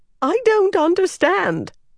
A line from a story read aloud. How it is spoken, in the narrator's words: Ramchalan said, his voice nearly a squeak